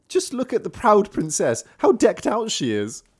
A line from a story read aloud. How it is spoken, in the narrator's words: they cried and laughed